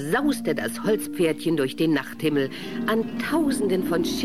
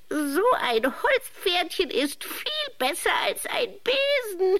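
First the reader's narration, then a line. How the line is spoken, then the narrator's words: Witch giggling. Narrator (German): kicherte die Hexe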